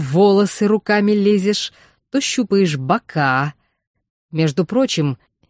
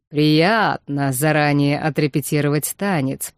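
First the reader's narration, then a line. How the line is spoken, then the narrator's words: Purring. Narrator (Russian): промурлыкал Вархар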